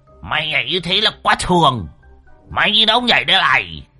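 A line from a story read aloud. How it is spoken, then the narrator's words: Hot-tempered howl. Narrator (Vietnamese): Lão đồng nóng máu rú lên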